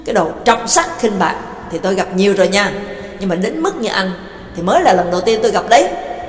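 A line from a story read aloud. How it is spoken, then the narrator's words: Furious scolding. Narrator (Vietnamese): Nhạc Dương tức tối quát miệng ra mắng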